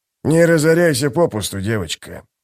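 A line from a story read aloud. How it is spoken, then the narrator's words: Former priest muttering. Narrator (Russian): пробормотал бывший жрец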